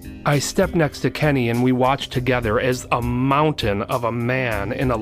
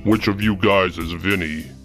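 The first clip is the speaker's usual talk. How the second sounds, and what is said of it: Deep bellowing man's voice. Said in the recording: “I heard a deep voice bellow from the side of the house.”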